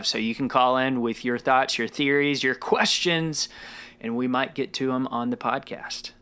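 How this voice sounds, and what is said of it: Polished radio announcer voice. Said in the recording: “I just said that in my like radio voice. Like I went full radio there.”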